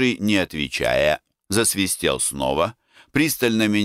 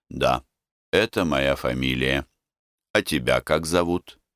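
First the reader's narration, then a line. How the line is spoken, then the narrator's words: Calm, carefully neutral. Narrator (Russian): ответил спокойно, стараясь изо всех сил ничего не выразить на своем лице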